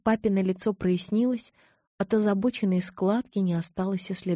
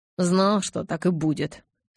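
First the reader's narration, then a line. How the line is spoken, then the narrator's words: Grumbled again. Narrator (Russian): снова пробурчал он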